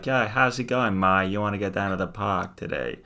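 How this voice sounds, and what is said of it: Put-on Boston accent. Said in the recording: “the Bostonian accent ... So the Boston accent ... Boston's a bit more about the A, apparently”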